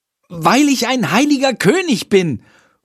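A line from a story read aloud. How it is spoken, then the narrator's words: Calling out. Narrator (German): ruft Jendrik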